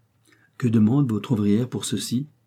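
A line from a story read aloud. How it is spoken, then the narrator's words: Plain. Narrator (French): dit enfin M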